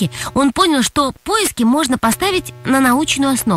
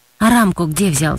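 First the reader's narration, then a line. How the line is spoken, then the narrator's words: Plain. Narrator (Russian): спросил Юрий Николаевич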